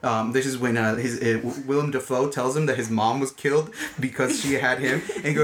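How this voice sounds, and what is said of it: Usual voice. Nothing is said of it.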